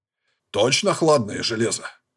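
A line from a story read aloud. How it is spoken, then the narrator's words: Doubtful growl. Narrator (Russian): Прорычал он с сомнением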